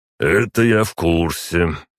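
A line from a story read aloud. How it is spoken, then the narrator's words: Snorting into beard. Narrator (Russian): отреагировал Крислав, хмыкнув в бороду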